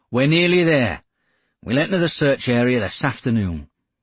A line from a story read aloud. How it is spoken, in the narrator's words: Geordie announced